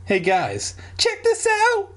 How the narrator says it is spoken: Dad exclaimed

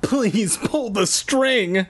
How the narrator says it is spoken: I called

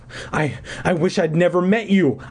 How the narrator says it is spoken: I cried to the crystal woman

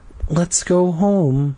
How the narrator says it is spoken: Mom sighed

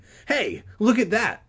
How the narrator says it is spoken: Regina cried suddenly

